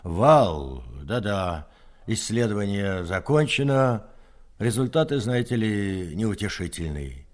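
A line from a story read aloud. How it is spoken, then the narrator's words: Indifferent, detached voice. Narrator (Russian): Корзанов, как о чем-то далеком и несущественном, сообщил равнодушным голосом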